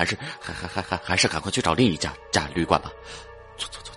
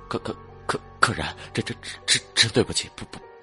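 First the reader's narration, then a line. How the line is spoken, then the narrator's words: Terrified stammering. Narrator (Chinese): 旅馆的服务生惊恐万分，结结巴巴的说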